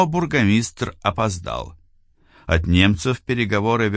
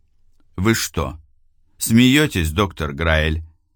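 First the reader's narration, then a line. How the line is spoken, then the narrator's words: Calm, mocking, superior. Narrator (Russian): сказал Франк спокойно, но с заметной издевкой и чувством превосходства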